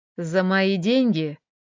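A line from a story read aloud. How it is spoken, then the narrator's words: Snorting, half-choking. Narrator (Russian): хмыкнул Рома, почти задыхаясь от ее недешевых, но очень приторных духов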